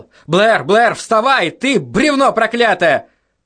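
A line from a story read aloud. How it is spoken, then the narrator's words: Shouted. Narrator (Russian): Конант закричал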